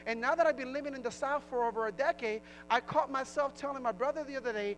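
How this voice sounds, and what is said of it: Thick Latino and New Jersey accent. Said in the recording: “my thick English accent is a mixture of Latino / Jersey accent ... I still say weeby, heeby, sheeby, daby. That's an up north thing.”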